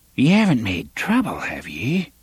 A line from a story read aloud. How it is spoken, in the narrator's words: she whispered